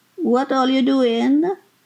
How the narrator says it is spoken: Her voice was slurred

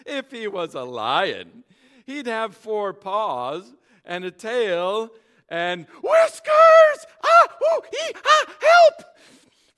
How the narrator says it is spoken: began to laugh

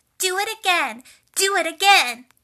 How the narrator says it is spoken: Elizabeth shouted

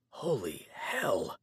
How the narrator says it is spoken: I whispered against my coat sleeve

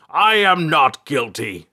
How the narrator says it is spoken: the king shouted

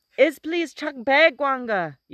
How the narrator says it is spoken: yelled the youth, struggling to make himself heard over the din

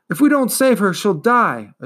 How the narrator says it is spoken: Atreyu cried out

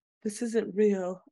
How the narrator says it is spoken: I murmured

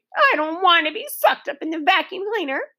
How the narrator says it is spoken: she sobbed

